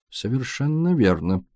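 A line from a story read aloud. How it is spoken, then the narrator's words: Mutter. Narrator (Russian): пробормотал Пуаро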